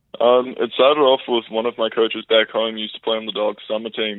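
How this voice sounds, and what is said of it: New Zealand accent. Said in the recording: “based on your accent, you're not from Alberta ... from New Zealand”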